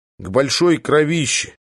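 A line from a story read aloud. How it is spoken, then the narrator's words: Gruff muttering from behind. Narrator (Russian): буркнул сидевший за моей спиной Цапко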